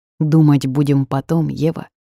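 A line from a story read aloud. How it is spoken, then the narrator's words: Plain. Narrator (Russian): сказал босс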